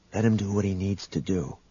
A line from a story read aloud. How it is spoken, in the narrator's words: Han whispered to the young man